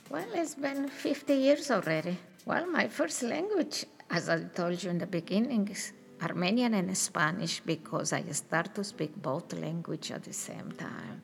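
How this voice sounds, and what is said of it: Very strong non-native English accent. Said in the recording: “I have a very, very strong accent”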